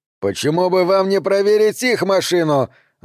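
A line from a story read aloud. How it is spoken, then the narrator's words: Yelling, tense, sweating. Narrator (Russian): заорал Дэнс, на висках у которого выступил пот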